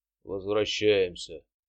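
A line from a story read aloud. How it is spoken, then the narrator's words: Sigh. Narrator (Russian): вздохнул Всеволод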